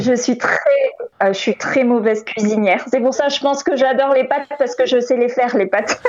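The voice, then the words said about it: Slight Toulouse accent. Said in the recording (French): “T'as un léger accent de Toulouse. J'adore. On sent le soleil.”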